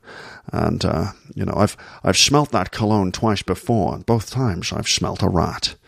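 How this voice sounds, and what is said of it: Low-voiced Sean Connery impression. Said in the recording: “a Sean Connery impression ... You just lower your voice down here, like this. Make your voice as low as possible. And then all of the S sounds become sh.”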